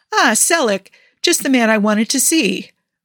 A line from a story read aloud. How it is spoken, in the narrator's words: Mark speaks over him cheerfully